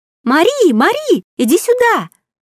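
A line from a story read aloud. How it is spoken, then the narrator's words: Shrill distant voice. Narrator (Russian): Послышался визгливый голос из глубин 2-го этажа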